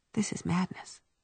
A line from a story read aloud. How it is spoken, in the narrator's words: she said softly